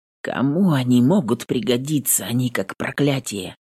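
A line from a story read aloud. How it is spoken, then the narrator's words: Quiet, hoarse. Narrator (Russian): Отвечаю тихо и хрипло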